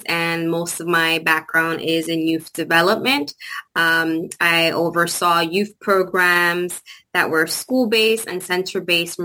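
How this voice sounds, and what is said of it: New York Bronx accent. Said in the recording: “my accent... it's an unusual accent. Is it like Portuguese?... The Latina from the Bronx”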